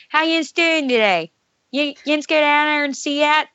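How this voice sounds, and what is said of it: Put-on Pittsburgh accent. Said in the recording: “I'm also from Pittsburgh, so like they have the worst accent in the whole world.”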